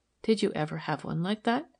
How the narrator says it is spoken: asked softly

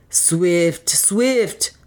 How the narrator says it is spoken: cried Otter again

